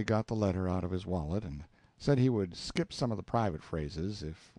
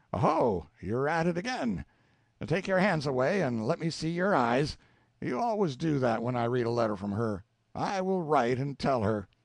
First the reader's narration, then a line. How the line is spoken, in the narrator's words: he cried out